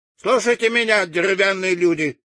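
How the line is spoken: Loud speech. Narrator (Russian): громко начала она свою речь

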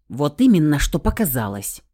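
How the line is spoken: Raised voice. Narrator (Russian): Вновь повысила тон голоса я

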